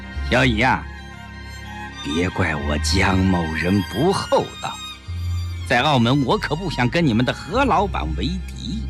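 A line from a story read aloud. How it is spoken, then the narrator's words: Slow, half-smiling. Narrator (Chinese): 江世飞似笑非笑地端详着手枪，缓缓地说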